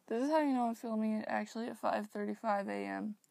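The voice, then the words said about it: Tired, sleepy voice. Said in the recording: “I'm so incredibly tired. You guys can probably hear by my voice.”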